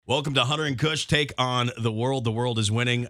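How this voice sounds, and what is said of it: Resonant, gritty radio-announcer voice. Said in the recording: “Nice radio voice. ... You do have like a resonance. There's a little bit of grit to your voice now.”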